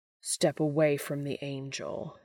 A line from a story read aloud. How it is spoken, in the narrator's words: growls